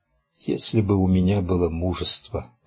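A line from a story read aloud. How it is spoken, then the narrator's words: Muttering. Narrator (Russian): пробормотала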